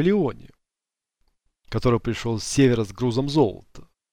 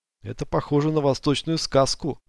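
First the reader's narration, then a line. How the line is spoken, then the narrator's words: Plain. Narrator (Russian): сказал Диего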